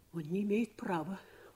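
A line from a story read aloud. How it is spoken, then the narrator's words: Jealous, vexed muttering. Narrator (Russian): бормотала она, стараясь осмыслить свою ревность и свою досаду на мужа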